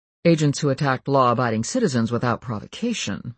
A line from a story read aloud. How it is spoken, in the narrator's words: murmured Kyle